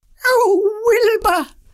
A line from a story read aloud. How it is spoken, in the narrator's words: cried Winnie